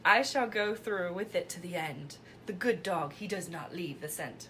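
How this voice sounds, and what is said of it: Poirot accent impression. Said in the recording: “which I have no good... way of doing the accent, but ... oh, that was fine ... you can't top”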